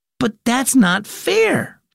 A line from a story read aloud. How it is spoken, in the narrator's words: Bax exclaimed